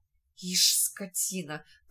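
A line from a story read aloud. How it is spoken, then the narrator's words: Muttered through teeth. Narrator (Russian): пробормотал сквозь зубы Луж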